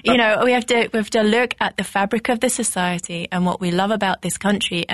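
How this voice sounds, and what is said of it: British accent. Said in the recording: “I clearly have a British accent.”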